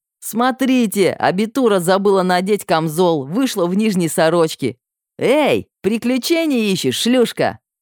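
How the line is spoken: Young man shouting. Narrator (Russian): закричал пухлый рыжий парень

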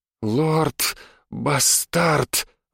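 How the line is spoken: Breathed out. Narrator (Russian): выдохнула женщина

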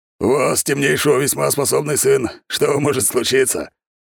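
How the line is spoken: Loud laughter. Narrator (Russian): хохотал Михаил, ставший человеком

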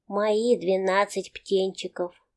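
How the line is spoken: Muttering. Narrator (Russian): бормочет она

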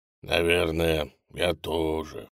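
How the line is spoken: Crocodile sighing. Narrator (Russian): вздохнул крокодил

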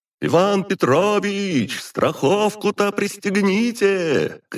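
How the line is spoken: Young man shouting from below. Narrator (Russian): крикнул снизу молодой прораб Андрей

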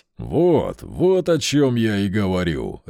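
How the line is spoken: Bursting into laughter. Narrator (Russian): расхохотался Тони

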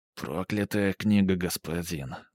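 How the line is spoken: Mutter. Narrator (Russian): бормотал

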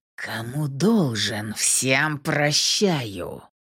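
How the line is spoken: Contemptuous hiss, big man. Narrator (Russian): Презрительно процедил здоровяк

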